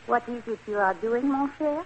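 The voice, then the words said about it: Phony French accent. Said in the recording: “My phony French accent ... you did it rather well”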